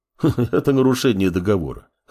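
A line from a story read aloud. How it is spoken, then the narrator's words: Chuckling. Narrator (Russian): хохотнул Мамор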